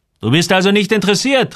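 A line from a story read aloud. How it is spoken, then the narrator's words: Man calling out. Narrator (German): rief der Mann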